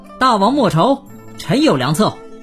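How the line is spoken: Loud call. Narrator (Chinese): 高声叫道

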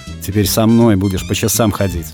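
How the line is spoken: Grumbling. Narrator (Russian): ворчала примчавшаяся Милка

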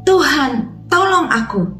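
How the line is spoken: Crying out. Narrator (Indonesian): Yesus berseru kepada Tuhan

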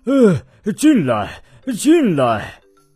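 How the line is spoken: Breathless. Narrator (Chinese): 圆胖医生就气喘吁吁地说

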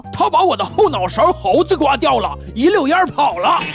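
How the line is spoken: Angry man, teeth bared. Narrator (Chinese): 大汉龇着牙怒道

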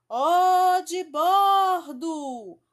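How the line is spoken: Shouted again. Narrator (Portuguese): Alguém gritou de novo

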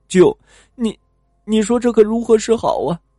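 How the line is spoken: Terrified halting plea. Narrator (Chinese): 李大壮本来就害怕，吓得好半天才说出话来，哀求道

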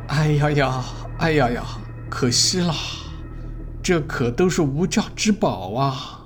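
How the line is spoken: Old man sighing. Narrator (Chinese): 朱老先生叹息说

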